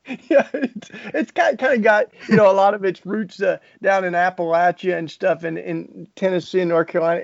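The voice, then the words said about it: Southern US (Tennessee) accent. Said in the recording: “I grew up in down south. That's why I have such a charming accent.”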